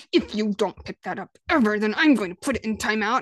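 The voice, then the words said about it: Scary, threatening voice. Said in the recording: “scary voice”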